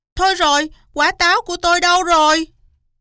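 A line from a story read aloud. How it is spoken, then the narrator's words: Loud shriek. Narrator (Vietnamese): Cáo cũng thức dậy rồi hét toáng lên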